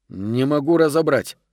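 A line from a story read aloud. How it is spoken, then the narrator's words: Grumbled. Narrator (Russian): проворчал Гарсия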